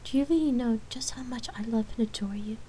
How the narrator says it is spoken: She asked as she smiled

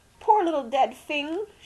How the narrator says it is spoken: she sobbed

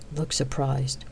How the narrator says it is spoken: muttered under her breath

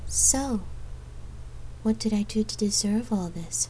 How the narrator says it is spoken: She murmured

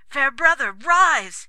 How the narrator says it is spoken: he cried

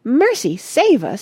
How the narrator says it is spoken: yelled Mrs

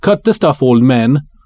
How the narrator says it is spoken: Uli snaps

